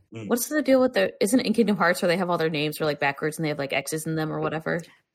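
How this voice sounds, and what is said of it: Sick-sounding, altered voice. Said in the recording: “my voice is probably going to sound a little different today ... I'm like the COVID spinoff version of Ellen”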